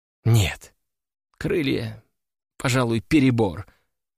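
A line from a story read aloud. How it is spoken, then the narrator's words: Strained, forced out. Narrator (Russian): наконец выдавила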